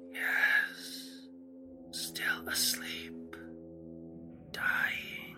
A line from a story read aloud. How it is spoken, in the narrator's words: he said very faintly, almost inaudibly